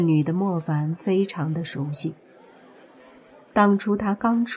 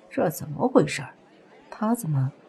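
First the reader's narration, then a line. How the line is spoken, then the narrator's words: Low frowning voice. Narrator (Chinese): 莫凡皱眉 低声说道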